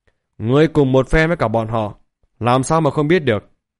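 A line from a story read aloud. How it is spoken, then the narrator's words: Angry shout. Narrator (Vietnamese): Thạch Hạo lập tức giận dữ la lên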